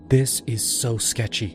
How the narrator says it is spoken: Mia whispered to me

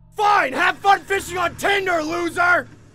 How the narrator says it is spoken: I stupidly shouted from the balcony

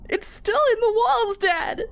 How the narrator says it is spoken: wailed

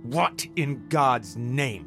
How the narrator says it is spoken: He exclaimed angrily

